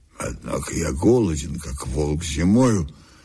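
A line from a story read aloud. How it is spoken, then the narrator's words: Gloomy. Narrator (Russian): сказал он мрачно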